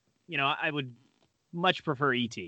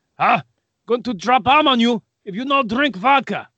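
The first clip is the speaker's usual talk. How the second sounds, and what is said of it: Mock Russian accent. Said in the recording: “That wasn't a very good Russian accent.”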